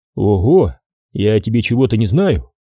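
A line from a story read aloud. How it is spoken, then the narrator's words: Short laugh. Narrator (Russian): хохотнул Доронин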